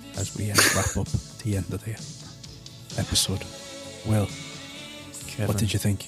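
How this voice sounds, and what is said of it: Soft ASMR-style voice. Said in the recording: “doing my Jamie ASMR voice”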